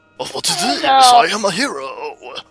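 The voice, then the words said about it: Imitates a character's horrible accent. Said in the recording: “that horrible accent”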